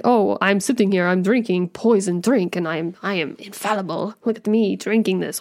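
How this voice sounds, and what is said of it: Poor put-on Russian accent. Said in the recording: “Sorry for my very poor Russian accent there.”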